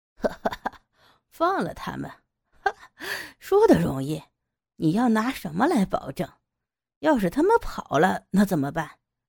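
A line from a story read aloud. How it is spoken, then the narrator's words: Mocking laugh. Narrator (Chinese): 高利贷的人笑着说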